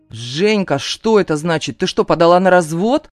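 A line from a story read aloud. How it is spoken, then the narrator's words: Indignant shouting on phone. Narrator (Russian): возмущенно кричит Роман в трубку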